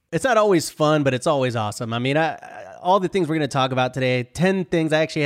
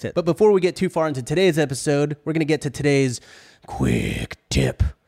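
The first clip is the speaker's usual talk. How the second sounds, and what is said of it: Imitated Batman-style voice. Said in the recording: “doing a good David impression ... an impression of David doing an impression of Christian Batman ... an impression of an impression”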